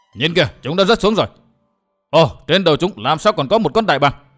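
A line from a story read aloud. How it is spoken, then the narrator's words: Excited crowd shouting. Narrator (Vietnamese): những tiếng hò hét quát tháo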